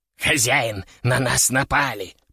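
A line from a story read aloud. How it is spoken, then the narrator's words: Hiss. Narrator (Russian): прошипел Кеша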